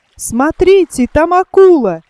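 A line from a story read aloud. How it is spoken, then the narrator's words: Loud exclamation. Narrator (Russian): громко воскликнул он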